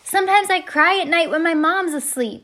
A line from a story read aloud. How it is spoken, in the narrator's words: Salvador screamed